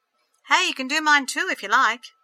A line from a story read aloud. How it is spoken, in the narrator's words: called out